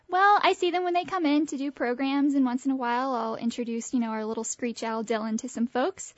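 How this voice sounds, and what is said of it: Slight Southern drawl. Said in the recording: “I'm definitely a Southern girl... You kind of have that drawl... A little bit... But just a little bit. I have heard thicker... Try to keep it toned down.”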